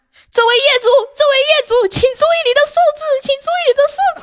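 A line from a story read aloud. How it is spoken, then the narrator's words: Shouting through microphone. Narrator (Chinese): 他在话筒里面喊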